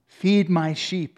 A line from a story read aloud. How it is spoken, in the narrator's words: he said